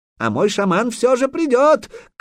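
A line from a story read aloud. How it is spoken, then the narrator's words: Shouted after someone. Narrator (Russian): крикнул ему вслед Курей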